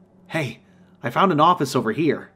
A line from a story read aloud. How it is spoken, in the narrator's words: I exclaimed